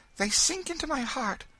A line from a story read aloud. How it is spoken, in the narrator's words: she repeated earnestly